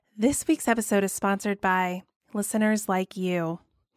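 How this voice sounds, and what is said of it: Public broadcasting announcer voice. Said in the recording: “put on my PBS voice”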